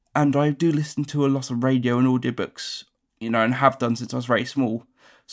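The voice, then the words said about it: Neutral English accent, fast speech. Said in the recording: “It's quite a neutral accent ... I speak naturally quite quickly”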